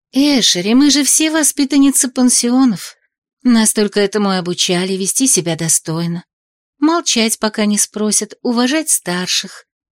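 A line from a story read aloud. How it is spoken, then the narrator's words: Sugary, unctuous assurance. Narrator (Russian): елейным голоском заверила ее Хваяна Хюгель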